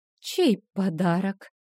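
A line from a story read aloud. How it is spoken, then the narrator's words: Confused questioning. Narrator (Russian): растерянно уточнила я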